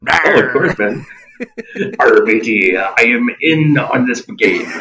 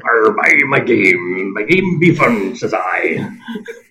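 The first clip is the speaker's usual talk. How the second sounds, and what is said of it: Pirate voice. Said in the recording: “do the pirate voice ... do your pirate voice”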